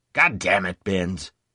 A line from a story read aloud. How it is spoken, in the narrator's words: he growled